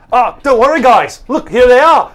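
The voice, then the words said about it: Put-on Australian accent, bit New Zealand. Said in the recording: “He's Irish now? ... That's Australian. That was my Australian accent. ... Maybe a little New Zealand”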